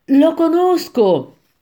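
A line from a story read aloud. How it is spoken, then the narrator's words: Exclaimed. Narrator (Italian): esclamai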